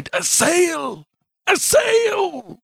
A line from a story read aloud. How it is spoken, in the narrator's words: I bit my arm, I sucked the blood and cried